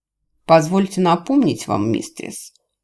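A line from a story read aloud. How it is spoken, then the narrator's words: Cold. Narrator (Russian): холодно молвил Джевидж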